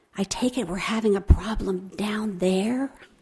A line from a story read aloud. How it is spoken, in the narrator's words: A starched nurse met us and whispered